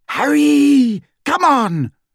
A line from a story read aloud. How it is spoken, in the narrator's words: screamed Hermione